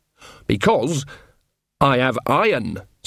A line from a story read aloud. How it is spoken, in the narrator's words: said Nanny, her voice suddenly sharp